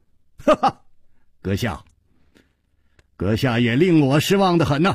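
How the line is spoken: Laughing. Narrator (Chinese): 楚留香笑着说

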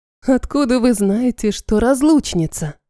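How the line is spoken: Breathy exhale. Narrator (Russian): Выдохнула я

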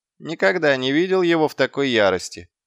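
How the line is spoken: Snorting remark. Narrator (Russian): хмыкнул Гаспод

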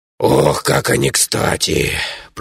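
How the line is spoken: Grumbling gnome. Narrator (Russian): пробурчал подошедший сзади гном

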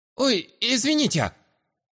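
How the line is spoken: Squeak. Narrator (Russian): Пропищал

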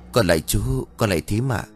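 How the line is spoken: Soft polite greeting. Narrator (Vietnamese): Mận khẽ cúi đầu chào

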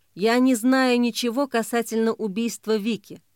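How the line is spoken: Plain. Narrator (Russian): сказал Соболев

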